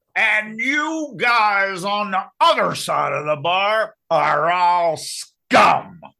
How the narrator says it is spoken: growls

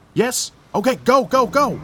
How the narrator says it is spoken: The policewoman shouted back to the back of the truck

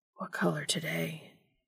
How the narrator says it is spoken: Dean whispered

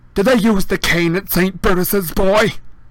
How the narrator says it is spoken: She barked across the table

